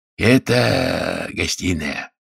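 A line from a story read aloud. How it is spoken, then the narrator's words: Hoarse voice. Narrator (Russian): говорил он хриплым голосом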